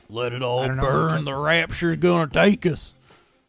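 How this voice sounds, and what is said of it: Put-on redneck accent. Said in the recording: “why did you do that like in a redneck accent?”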